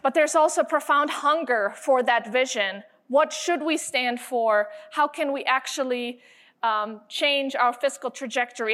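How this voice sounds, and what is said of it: German accent. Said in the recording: “I have an accent, ... I hail from the land of BMW, Bavaria, Germany.”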